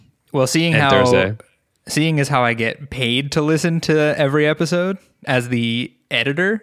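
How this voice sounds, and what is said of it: Usual voice. Nothing is said of it.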